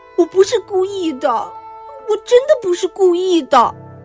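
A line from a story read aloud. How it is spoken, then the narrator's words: Crying. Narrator (Chinese): 哭着说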